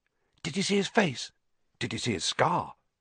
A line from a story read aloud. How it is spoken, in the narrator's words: Whispers followed Harry